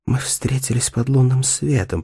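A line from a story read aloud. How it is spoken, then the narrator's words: Whisper. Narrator (Russian): прошептала Дейдра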